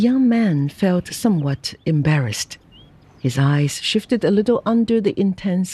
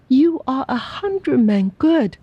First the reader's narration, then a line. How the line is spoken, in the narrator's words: she cried